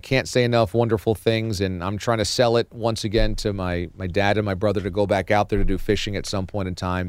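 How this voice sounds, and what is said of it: Hoarse, nearly lost voice. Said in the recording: “losing my voice”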